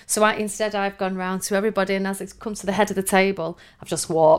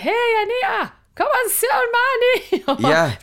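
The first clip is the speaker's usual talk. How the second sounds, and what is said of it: Put-on Scottish accent. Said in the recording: “That's a Scottish accent. ... It was all right.”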